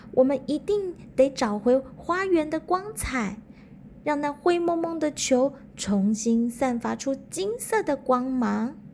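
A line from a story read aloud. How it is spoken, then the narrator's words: Child crying out. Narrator (Chinese): 小孩子叫了起来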